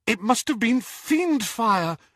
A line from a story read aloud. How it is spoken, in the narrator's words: whimpered Hermione